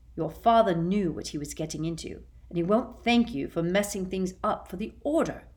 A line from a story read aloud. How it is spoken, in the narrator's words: said Sirius angrily in his turn